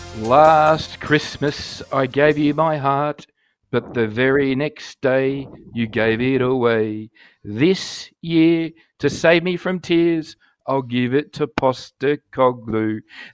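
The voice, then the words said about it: Sings like football terrace fans. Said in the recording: “my very best impersonation of the Celtic fans on the terraces ... The Celtic fans break out into this serenade”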